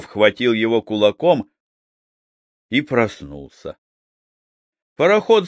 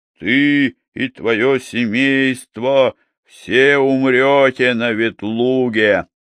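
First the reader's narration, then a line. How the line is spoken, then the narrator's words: Sepulchral man's voice. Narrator (Russian): высокий человек с черным лицом и сказал за могильным голосом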